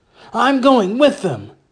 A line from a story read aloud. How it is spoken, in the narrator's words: Jotham had said again, his voice so loud and high that the sheep nearby began to wail in fright